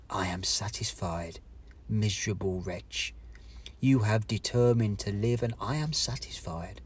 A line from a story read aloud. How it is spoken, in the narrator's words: addressed me in an audible whisper